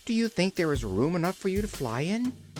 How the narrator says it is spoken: asked the little girl anxiously

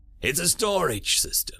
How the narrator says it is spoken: Legion groaned

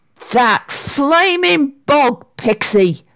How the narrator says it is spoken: shouted Sarah angrily

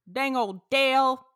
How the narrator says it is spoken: Boomhauer yelled

